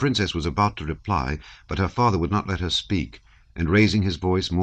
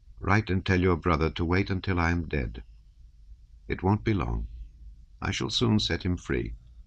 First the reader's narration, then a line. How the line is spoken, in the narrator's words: the old prince said to her quietly